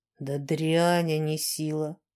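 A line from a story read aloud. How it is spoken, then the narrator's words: Weary grimace. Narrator (Russian): устало скривился мастер Чьёс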